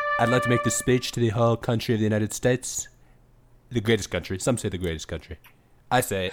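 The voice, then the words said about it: Imitates another person's voice. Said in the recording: “impersonation of Trump”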